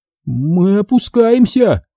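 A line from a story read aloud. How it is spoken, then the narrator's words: Exclaiming. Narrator (Russian): воскликнул я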